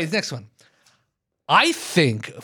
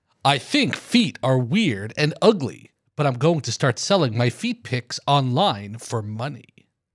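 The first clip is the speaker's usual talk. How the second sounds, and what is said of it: Announcer voice. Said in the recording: “I got my announcer voice.”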